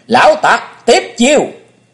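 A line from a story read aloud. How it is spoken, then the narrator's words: Thunderous shout. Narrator (Vietnamese): Chàng hét vang như sấm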